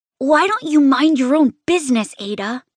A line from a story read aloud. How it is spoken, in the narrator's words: He snaps at me